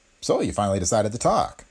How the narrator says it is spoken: he said in a friendly voice

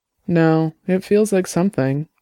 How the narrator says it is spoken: Dex said sadly

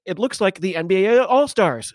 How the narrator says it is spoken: shouted the comms

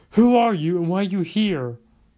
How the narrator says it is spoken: yelled

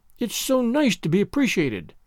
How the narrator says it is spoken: sighed Anne rapturously

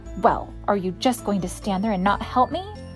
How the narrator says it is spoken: snapped

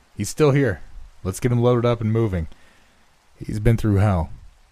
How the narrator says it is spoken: called out

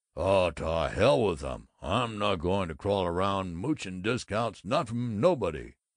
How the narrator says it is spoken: Henry Thompson growled

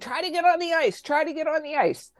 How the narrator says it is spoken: the pilot was shouting

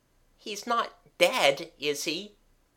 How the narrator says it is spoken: asked Jimmy anxiously

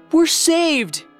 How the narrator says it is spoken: cried Evangeline

